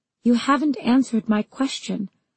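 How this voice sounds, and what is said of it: Steely, hard voice. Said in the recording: “in a steely voice”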